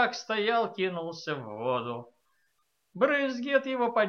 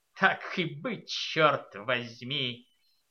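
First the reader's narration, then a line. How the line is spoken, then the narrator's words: Muttering. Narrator (Russian): Серевиньи пробормотал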